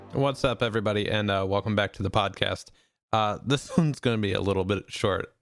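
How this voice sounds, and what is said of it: Unwell, strained voice. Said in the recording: “as you can tell by my voice already, I'm not in that great shape ... my voice has been kind of in and out”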